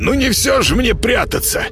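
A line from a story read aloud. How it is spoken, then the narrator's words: Hoarse wheeze. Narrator (Russian): прохрипел кот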